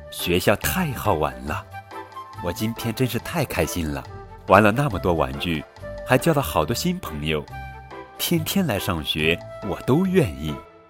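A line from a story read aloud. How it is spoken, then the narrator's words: Overjoyed, grinning widely. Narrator (Chinese): 威尔逊开心的不得了，他笑得合不拢嘴，说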